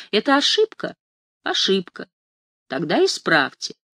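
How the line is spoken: Calm, friendly. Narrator (Russian): спокойно и доброжелательно улыбается и говорит

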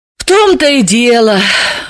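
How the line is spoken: Sighing. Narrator (Russian): вздохнула Далила

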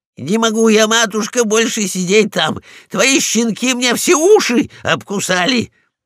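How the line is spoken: Dog shouting on the move. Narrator (Russian): На ходу прокричал полкан

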